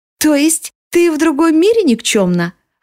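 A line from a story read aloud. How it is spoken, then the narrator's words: Happy question. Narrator (Russian): радостно спрашивает Лиана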